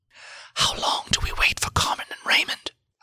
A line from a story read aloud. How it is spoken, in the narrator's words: I whispered to Siegfried